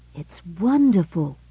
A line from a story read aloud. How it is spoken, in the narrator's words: gasped Alvin